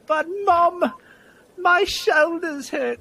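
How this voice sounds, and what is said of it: Bad put-on accent. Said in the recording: “that's a horrible accent”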